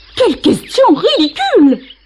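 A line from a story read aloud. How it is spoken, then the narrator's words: Shrill ostrich cry. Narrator (French): s'écria l'autruche d'une voix perçante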